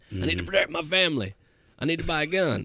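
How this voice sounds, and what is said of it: Put-on Southern accent. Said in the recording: “Why the Southern accent, though?”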